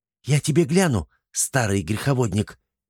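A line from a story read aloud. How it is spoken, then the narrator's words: Hissing. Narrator (Russian): зашипела Верак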